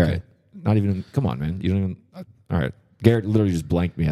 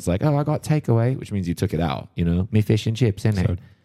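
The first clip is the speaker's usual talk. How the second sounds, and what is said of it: Put-on British accent. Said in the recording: “as I was doing my British accent.”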